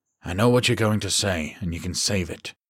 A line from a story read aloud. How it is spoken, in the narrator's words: he said flatly